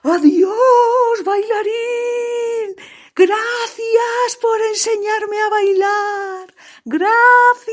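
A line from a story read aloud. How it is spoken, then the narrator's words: Scarecrow shouting. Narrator (Spanish): el espantapájaros le gritó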